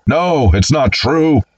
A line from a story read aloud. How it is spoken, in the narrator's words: Packer sitting up suddenly in a hospital bed, yelling